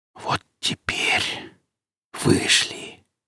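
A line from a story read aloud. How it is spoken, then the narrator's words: Whisper. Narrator (Russian): прошептал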